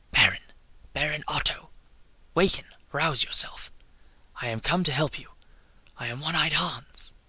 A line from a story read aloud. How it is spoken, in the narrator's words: a voice whispered in his ear